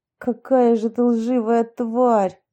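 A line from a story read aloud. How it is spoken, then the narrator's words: Angry, through gritted teeth. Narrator (Russian): зло процедил Юрий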